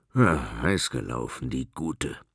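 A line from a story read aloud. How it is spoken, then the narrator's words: Grumbling. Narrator (German): brummte er dabei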